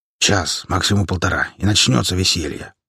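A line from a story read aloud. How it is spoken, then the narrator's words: Big man grumbling. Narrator (Russian): пробурчал здоровяк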